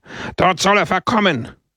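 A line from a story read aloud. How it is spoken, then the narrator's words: Crowd roaring. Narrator (German): brüllte die Versammlung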